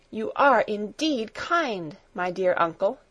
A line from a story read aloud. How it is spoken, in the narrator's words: she exclaimed